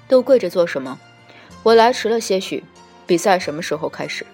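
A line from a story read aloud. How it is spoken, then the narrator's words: Calm, unhurried. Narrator (Chinese): 帝君仍气定神闲地，不紧不慢，淡淡拂袖道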